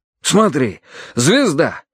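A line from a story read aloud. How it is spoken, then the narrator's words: Exclaimed. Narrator (Russian): воскликнул Карадерс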